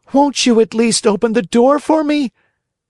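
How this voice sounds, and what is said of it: Beseeching, pleading voice. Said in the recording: “cried Pinocchio in a beseeching voice.”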